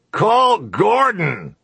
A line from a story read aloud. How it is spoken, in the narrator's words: the man said, shouting now